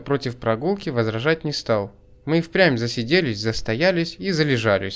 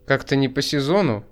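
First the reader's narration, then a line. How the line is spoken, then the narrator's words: Snort. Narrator (Russian): Я хмыкнул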